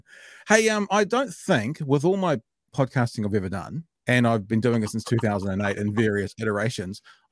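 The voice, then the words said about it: New Zealand accent. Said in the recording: “that New Zealand thing ... us Kiwis ... you have a great accent”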